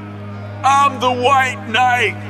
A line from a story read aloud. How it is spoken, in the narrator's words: cried out